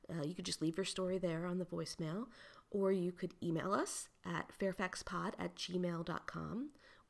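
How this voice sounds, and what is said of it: Voice sounds like a cold. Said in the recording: “I caught a cold, which is why I sound very different”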